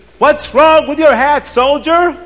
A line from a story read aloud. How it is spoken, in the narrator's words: The Tsar screams